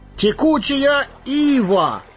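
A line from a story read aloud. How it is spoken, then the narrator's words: Exclamation. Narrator (Russian): воскликнул Пипин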